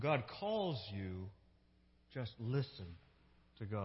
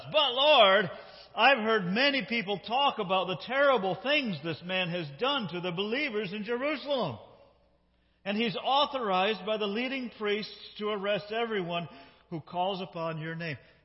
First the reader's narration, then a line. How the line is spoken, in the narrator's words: exclaimed Ananias